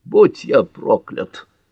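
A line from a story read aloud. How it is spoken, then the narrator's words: Muttered. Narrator (Russian): пробормотал Джон Ф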